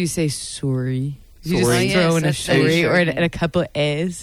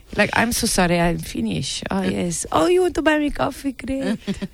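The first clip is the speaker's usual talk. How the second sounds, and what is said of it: Bad put-on Finnish accent. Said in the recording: “I pretended I was Finnish before ... bad accent”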